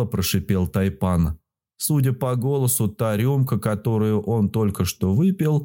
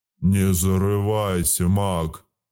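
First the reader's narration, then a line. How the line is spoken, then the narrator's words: Growling. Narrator (Russian): рыкнул на меня Аракс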